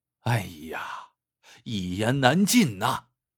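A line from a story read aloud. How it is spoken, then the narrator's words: Long sigh. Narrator (Chinese): 刘二长叹一声说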